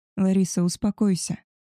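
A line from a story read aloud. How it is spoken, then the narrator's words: Soft, gentle. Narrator (Russian): мягко сказала я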